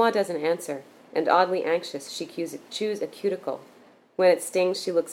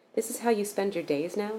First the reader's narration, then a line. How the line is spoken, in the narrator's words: he says